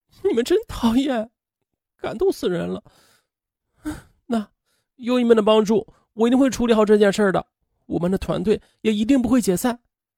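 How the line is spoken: Choked, tearful. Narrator (Chinese): 他哽咽着说

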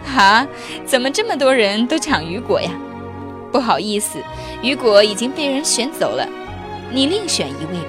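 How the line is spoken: Laughing. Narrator (Chinese): 对方笑了说

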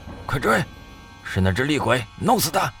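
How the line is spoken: Hurried shout. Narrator (Chinese): 张天志急忙向宋哲喊了一声

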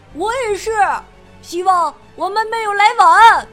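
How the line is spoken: Loud. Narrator (Chinese): 泰迪大声说道

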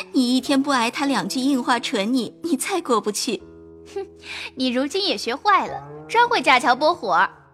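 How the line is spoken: Laughing. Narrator (Chinese): 袭人笑道

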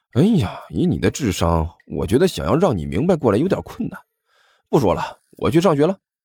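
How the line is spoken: Sighing. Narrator (Chinese): 甘球叹了口气

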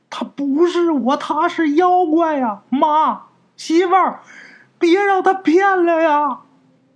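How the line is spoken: Desperate shouting. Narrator (Chinese): 喊

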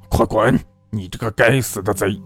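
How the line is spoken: Cold, murderous thundering roar. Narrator (Chinese): 冷冷的，像要杀人一样，声音如打雷一般吼道

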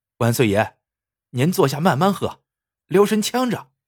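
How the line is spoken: Cheerful grinning shopkeeper. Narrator (Chinese): 店主笑嘻嘻的说

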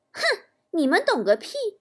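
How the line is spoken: Cold, sneering. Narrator (Chinese): 他却冷冷一笑说

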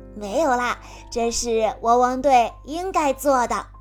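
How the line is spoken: Smiling reply. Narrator (Chinese): 阿奇笑着回答

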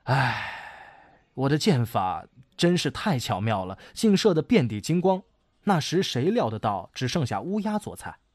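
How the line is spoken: Sighing. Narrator (Chinese): 后羿这时又不觉叹息说

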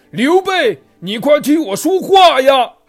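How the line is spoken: Frantic, desperate shout. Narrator (Chinese): 吕布着急了，又连忙挣扎着大叫

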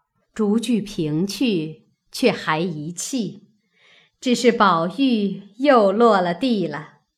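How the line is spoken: Laughing. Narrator (Chinese): 李纨笑道

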